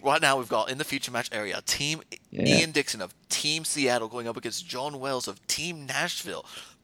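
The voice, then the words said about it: Poor put-on British accent. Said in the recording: “You need to work on your Rich there, buddy ... my poor British accent”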